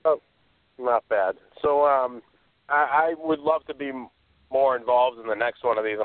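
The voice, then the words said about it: Noticeable regional accent. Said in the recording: “I can tell by the accent.”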